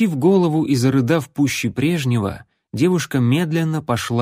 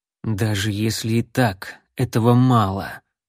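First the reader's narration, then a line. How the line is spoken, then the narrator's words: Hateful, through teeth. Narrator (Russian): с ненавистью процедил Гауст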